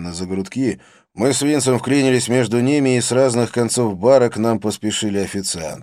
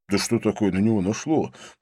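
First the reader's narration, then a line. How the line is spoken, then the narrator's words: Mumble. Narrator (Russian): пробормотал Винсент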